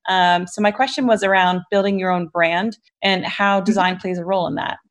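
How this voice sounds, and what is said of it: New Jersey accent. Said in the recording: “I'm based in Ireland, but obviously I have a New Jersey accent coming in”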